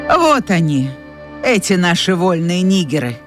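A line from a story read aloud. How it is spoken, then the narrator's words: Nanny's scornful snort. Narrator (Russian): фыркнула мамушка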